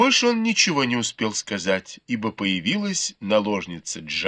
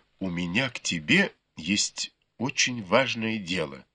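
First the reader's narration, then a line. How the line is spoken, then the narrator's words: Quiet, cautious voice. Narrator (Russian): тихим голосом, осторожно произнес Бао Юй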